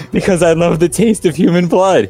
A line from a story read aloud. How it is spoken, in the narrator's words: he giggled